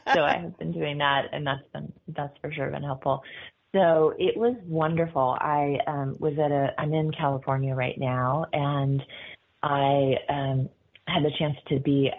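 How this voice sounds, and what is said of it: Slightly gravelly, worn voice. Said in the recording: “my voice is a little gravelly because I've been doing a couple of events”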